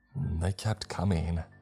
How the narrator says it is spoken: he said in a dead voice

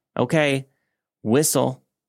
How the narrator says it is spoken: I called out

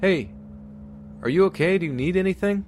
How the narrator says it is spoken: shouted

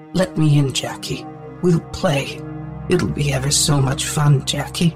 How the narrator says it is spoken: it insisted, still in that sickly sweet, soft voice, though it had taken on a more sinister tone

